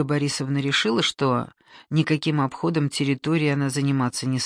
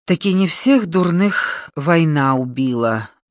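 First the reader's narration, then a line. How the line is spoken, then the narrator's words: Sighing. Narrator (Russian): вздохнул Малоед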